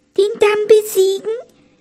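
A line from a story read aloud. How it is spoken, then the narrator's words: Frightened squeak. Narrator (German): piepste die Haselmaus und vor Schreck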